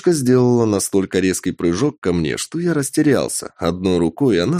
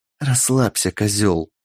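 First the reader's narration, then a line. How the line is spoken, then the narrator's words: Whispered. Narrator (Russian): прошептала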